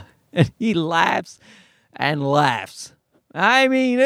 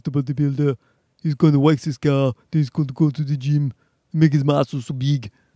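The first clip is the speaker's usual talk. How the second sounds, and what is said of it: Put-on Austrian bodybuilder accent. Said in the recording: “there's something universally funny about a Schwarzenegger accent”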